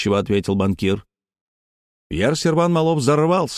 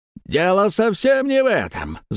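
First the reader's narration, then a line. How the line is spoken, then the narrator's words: Shouting. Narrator (Russian): закричал он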